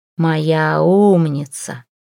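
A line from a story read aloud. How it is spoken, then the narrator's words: Hoarse near ear. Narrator (Russian): прохрипел у виска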